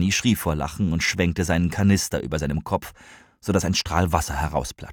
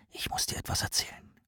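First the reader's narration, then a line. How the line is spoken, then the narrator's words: Whisper. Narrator (German): flüsterte Rahmane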